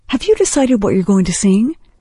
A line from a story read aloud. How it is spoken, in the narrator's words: Heather giggled